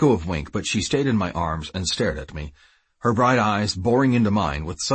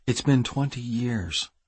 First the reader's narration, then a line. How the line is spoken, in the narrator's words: Wink said gently